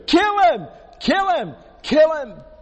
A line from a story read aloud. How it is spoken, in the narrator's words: they are screaming